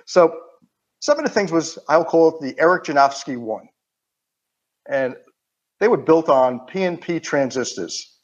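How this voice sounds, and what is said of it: Queens, New York accent. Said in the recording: “if you can't tell by my accent, I'm from Queens, New York ... I'm proud of my Queens accent”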